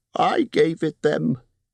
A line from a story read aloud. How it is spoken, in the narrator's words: squeaked Bilbo in a dreadful fright